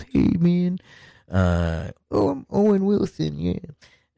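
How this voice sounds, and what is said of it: Poor impression of another person's voice. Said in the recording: “That was a horrible impression.”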